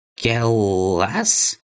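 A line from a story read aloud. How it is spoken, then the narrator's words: Thin creaky shout. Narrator (Russian): Тонким скрипучим голосом проорал он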